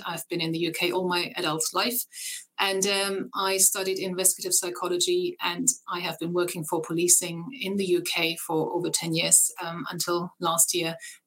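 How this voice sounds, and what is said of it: German accent in English. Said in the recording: “I have a German accent.”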